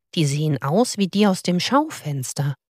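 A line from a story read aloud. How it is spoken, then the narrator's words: Murmuring. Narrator (German): murmelte er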